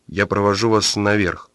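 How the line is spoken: Gloomy. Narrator (Russian): мрачно сказал Юрочка

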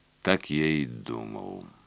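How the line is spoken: Muttered. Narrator (Russian): пробормотал Клерфе

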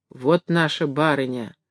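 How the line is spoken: Whispering servants. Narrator (Russian): со всех концов шептали лакеи

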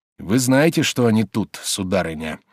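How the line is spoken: Meaningful, significant tone. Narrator (Russian): прибавил он многозначительным голосом

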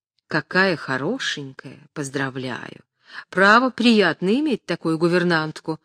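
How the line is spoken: Whispering. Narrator (Russian): шептал Тавровский

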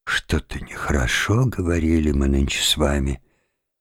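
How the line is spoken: Whispered. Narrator (Russian): прошептал

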